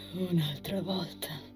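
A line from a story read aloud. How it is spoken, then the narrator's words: Bitter, sighing remark. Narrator (Italian): commentò con fare amareggiato, sospirando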